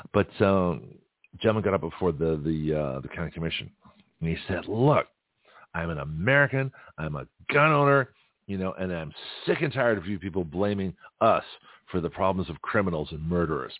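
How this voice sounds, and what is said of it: Hoarse, strained voice. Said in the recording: “My voice is shot from Saturday.”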